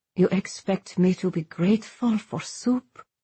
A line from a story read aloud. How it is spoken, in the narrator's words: she said quietly